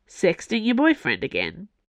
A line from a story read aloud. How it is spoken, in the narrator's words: Porthos asked